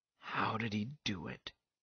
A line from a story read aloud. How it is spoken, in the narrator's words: he asked in a tired voice